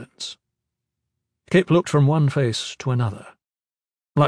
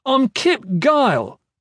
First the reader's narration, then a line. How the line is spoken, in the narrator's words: shouted